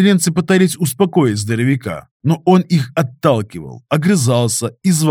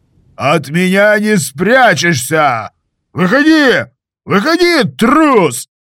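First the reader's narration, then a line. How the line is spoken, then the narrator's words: Shouting. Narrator (Russian): кричал Михаил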